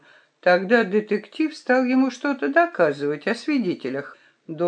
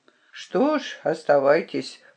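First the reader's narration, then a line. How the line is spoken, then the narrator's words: Grumbling doctor. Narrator (Russian): проворчал доктор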